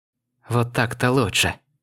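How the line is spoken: Wheezing, relieved sigh. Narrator (Russian): Прохрипела Мэй, и из ее легких вырвался вздох облегчения

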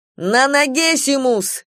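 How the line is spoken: Shout between attacks. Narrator (Russian): снова крикнула она в перерыве между атаками

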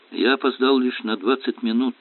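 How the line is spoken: Sigh. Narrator (Russian): вздохнул профессор

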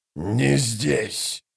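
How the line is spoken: Growled. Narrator (Russian): прорычал Троц

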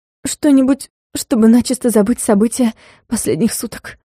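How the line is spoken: Resigned, forced out. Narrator (Russian): обреченно выдавила я

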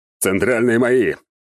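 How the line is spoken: Excited shout. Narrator (Russian): азартно закричал Альберт

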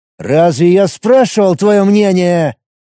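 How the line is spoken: Through gritted teeth. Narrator (Russian): сквозь зубы проговорил он

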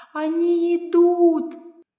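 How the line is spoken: Shouted. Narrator (Russian): она закричала

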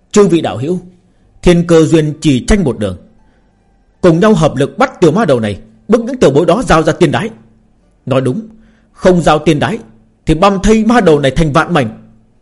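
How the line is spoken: Roaring. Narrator (Vietnamese): Cũng có người gầm lên

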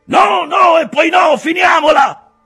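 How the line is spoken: Shouting repeatedly. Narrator (Italian): gridò una volta, e poi ancora

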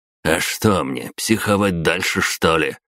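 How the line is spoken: Snort. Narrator (Russian): фыркнул он

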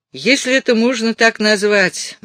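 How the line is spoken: Gloomy inspector's voice. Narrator (Russian): мрачным голосом произнес инспектор Аллен

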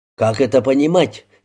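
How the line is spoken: Angry objection. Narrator (Russian): сердито возразил Мэйр

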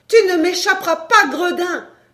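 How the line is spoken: Shouting. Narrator (French): cria la danseuse de cordes

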